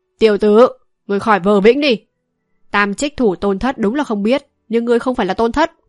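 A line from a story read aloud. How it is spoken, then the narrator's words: Harsh, clipped tone. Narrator (Vietnamese): gằn giọng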